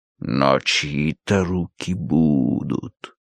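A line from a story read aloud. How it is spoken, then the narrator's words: Silky voice. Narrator (Russian): ответил Сирке своим шелковым голосом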